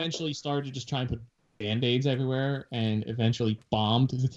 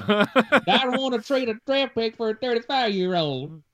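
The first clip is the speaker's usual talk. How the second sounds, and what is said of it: Exaggerated put-on Southern accent. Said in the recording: “In that weird southern accent that I keep giving him ... you're making him more and more southern”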